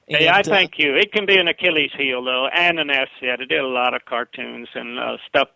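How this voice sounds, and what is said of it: Southern US accent. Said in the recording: “love the way that you sound in real life ... they hear the voice and they automatically know who you are ... I love the Southern accent. I can't give it up.”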